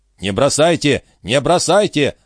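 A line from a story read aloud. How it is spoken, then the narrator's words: Urgent shout. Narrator (Russian): закричал Жюэль, видя, что Жильдас Трегумен и Саук начали подбирать камни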